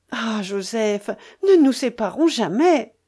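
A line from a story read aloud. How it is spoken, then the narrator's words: Fierce exclamation. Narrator (French): s'écria-t-elle avec une sauvage énergie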